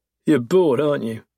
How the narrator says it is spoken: I chuckle

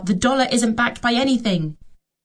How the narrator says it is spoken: I bite my tongue and try not to shout

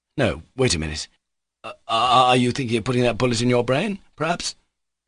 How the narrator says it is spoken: Pyotr Ilyich asked uneasily

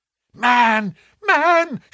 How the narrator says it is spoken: she cried

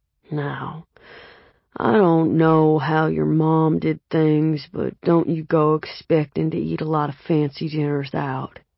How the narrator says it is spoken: Grandfather Harold said, his voice deep and ragged, the kind of voice that would scare a little kid

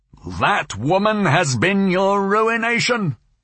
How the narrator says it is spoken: Ursula would shout at her great-grandson

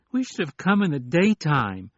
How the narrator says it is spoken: Larry whined

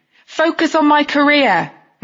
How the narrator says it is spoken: I said loudly

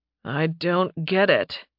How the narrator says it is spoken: he growled

